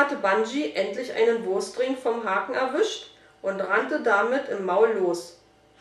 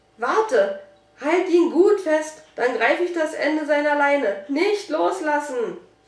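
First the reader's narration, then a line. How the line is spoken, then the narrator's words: Urgent pleading. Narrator (German): flehte, denn Bungee zappelte wie verrückt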